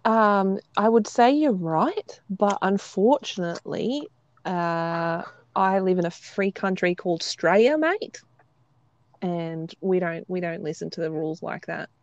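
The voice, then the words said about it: Attempted Australian accent. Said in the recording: “I was speaking an Australian accent, or attempting to.”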